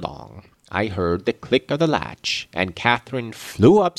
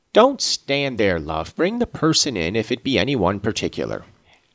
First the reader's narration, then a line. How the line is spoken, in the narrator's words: he exclaimed quickly